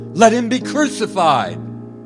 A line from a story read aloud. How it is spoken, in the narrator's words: they shouted all the more